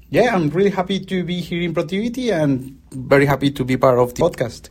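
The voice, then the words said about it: Strong foreign accent. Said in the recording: “hear from my strong accent”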